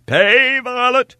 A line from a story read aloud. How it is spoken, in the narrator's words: cried the stranger to his servant